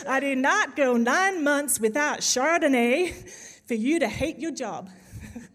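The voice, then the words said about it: Sassy Southern American accent. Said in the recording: “you have to say it in kind of the sassy American accent ... it's a bit of a southern accent, sorry, that's the only American accent I can do”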